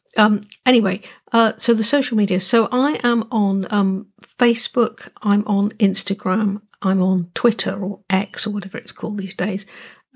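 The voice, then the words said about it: Croaky voice. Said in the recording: “sorry about my voice. I'm a bit croaky because it's quite early in the morning.”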